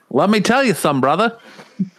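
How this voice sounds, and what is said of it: Imitates another person's voice. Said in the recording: “my terrible impressions”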